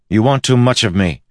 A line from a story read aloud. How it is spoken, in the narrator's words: he snapped at her